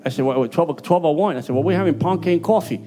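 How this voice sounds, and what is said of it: Puerto Rican accent. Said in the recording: “My Puerto Rican accent is killing you.”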